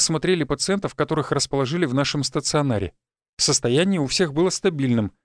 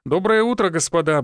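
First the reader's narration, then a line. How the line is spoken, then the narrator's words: Brisk cheerful start. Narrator (Russian): бодро начал он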